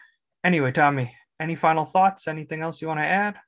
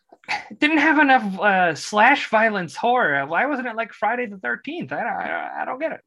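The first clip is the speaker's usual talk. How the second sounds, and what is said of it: Imitates another person's voice. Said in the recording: “my Tommy impression.”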